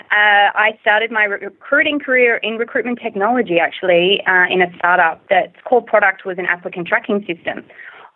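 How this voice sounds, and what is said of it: Australian accent. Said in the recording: “If you haven't already guessed from my accent, I'm originally from Australia.”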